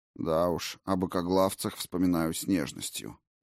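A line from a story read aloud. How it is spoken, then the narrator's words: Gruff mutter. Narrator (Russian): буркнул Арис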